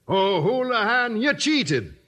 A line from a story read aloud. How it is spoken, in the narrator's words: cried Sweeney